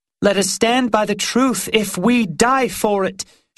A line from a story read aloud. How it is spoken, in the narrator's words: she cried